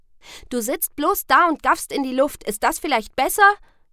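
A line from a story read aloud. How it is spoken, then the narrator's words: Call. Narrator (German): rief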